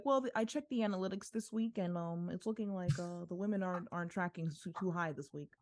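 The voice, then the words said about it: Impression of Tony Khan. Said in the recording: “Tony Khan ... that impression”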